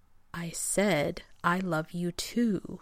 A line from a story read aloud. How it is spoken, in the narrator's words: he repeated slowly as if talking to a child, or to a moronic genius